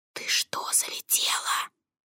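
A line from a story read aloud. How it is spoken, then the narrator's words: Whisper. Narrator (Russian): Королькова перешла на шепот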